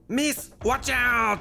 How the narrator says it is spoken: Pierre shouted at her

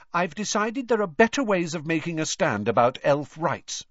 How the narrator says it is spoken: said Hermione haughtily

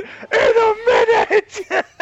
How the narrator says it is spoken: I was gonna scream

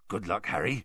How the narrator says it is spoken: Hagrid whispered

